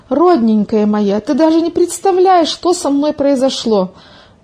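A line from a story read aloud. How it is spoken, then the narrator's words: Excited exclamation. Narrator (Russian): воскликнула Милка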